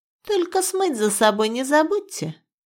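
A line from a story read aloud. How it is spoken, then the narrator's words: Mocking. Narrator (Russian): насмешливо добавила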